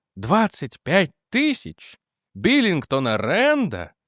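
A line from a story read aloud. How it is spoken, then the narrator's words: Breathless, dry-mouthed. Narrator (Russian): Выдохнул я, чувствуя, как у меня на миг пересохло во рту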